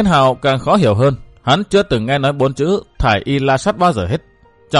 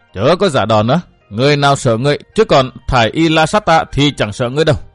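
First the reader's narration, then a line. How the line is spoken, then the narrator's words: Woman's furious roar. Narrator (Vietnamese): Phụ nhân áo bông gầm thét nói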